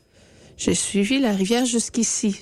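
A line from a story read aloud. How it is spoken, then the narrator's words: Sighing. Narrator (French): soupira-t-elle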